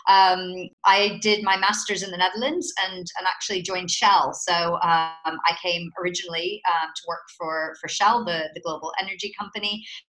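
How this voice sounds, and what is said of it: American accent. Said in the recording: “you can probably tell from my accent that I'm American”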